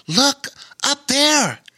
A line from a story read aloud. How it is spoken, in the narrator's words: gasped